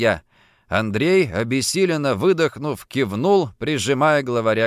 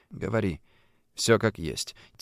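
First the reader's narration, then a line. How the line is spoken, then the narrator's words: Quiet command. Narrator (Russian): тихо приказал я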